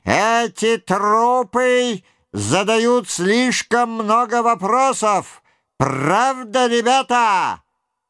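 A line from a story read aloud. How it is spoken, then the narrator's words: Sharp, then shouted to group. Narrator (Russian): резко бросил тип с красной полосой на рукаве, крикнул своим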